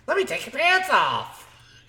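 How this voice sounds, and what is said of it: Mickey Mouse voice impression. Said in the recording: “Whoa. Did Mickey just walk in here?”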